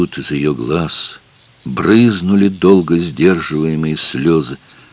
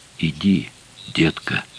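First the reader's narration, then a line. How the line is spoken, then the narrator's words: Whisper. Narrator (Russian): сказал ей шепотом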